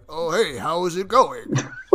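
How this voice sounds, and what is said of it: Put-on Japanese accent, anime-dub father voice. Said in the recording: “This is the Japanese voice I could do ... You sound like a dubbed father from an anime.”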